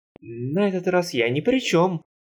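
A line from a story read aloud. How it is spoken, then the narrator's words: Frightened yell. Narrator (Russian): испуганно завопил Харви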